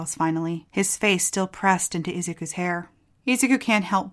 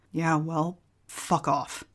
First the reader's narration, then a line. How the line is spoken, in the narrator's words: Kachan growls